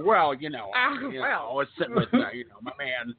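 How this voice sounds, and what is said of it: Imitates another person's voice. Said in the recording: “that's a terrible Dan Aykroyd impression”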